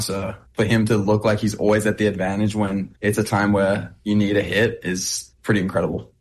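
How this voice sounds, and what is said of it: Non-American accent, slightly Americanized. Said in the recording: “he's starting to sound American. ... I want to keep that accent”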